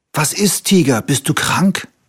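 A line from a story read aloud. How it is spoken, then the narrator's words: Calling out. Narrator (German): rief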